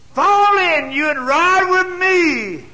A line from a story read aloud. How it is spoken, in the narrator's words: Jehu shouted back